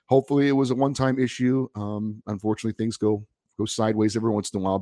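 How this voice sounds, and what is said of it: Raspy, sick-sounding voice. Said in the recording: “you may be able to hear in my voice that uh, I am fighting a bit of a bug ... I, don't sound as uh, wonderful as I normally do ... my sexy raspy voice”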